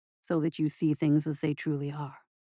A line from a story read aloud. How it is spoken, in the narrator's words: Father Time said